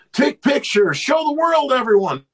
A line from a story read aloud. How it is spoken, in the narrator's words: he was yelling